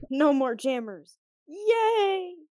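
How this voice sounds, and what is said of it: Sarcastic cheer. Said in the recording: “You do realize I'm being sarcastic, right?”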